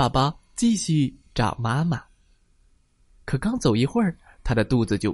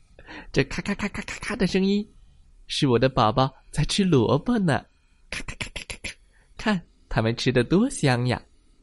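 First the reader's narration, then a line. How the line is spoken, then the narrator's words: Cheerful, laughing aunt. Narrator (Chinese): 兔子阿姨笑着说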